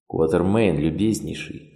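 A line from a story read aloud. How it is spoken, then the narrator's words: Dry tone. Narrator (Russian): сухо произнес Блик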